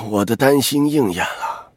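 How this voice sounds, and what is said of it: Weary, tired-sounding voice. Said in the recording (Chinese): “他用疲惫的声音说道”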